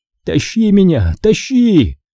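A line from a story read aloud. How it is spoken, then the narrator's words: Yelled. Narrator (Russian): заорал я Даниэлю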